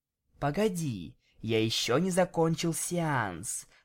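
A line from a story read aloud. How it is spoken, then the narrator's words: Whisper into ear. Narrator (Russian): прошептал я прямо ей на ушко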